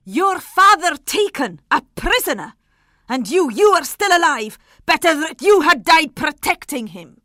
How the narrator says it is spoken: she shouted at them furiously

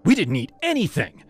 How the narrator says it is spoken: Jess snapped

